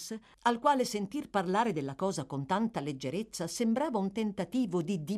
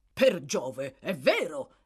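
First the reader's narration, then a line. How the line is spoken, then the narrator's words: Doctor exclaiming. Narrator (Italian): esclamò il medico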